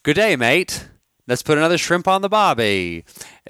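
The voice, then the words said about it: Put-on Australian accent. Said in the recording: “he messes up and does the Australian accent.”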